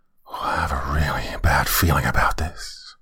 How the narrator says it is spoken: Kenny, whose throat had suddenly gone dry as a bone, whispered to Jacob and said

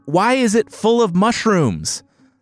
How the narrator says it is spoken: the deputy governor yelled over the edge

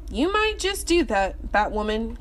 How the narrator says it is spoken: he laughed

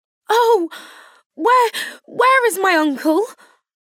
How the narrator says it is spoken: cried Elizabeth, darting from her seat as she finished the letter in eagerness to follow him, without losing a moment for time so precious

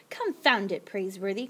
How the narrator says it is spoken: grumbled the Yankee trader

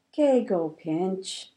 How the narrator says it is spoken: said Grandma wearily

